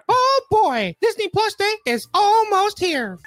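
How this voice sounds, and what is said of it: Mickey Mouse impression. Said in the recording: “I think we're going to have to give it to young Mickey ... over there”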